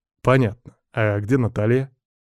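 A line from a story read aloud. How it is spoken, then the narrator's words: Feigned casual tone. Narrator (Russian): Я спрашиваю как бы независимым тоном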